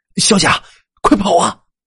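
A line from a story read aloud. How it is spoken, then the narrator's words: Shouting. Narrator (Chinese): 朝他大声喊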